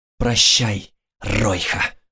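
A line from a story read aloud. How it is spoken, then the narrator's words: Hissed. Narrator (Russian): прошипел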